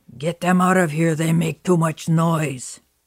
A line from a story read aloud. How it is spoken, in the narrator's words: growled